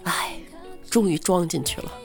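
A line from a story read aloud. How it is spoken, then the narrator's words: Sighing. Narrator (Chinese): 同事叹了口气说道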